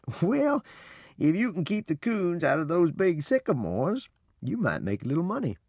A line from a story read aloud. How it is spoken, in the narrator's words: Papa laughed and said